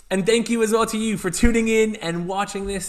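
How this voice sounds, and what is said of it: Mixed UK accent. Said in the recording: “I'm a mixed accent, as you can tell.”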